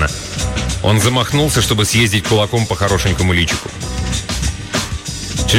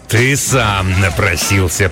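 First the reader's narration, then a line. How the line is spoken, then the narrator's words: Growled. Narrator (Russian): прорычал он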